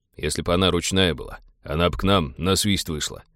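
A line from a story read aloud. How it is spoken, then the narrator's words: Angry grumbling. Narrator (Russian): в сердцах проворчал пилот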